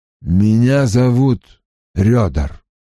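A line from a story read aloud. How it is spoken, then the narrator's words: Gruff mutter. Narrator (Russian): буркнул он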